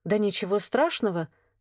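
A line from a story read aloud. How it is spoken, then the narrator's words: Embarrassed, ashamed mutter. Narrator (Russian): сконфуженно пробормотала я, чувствуя, как краска стыда ползет по шее к щекам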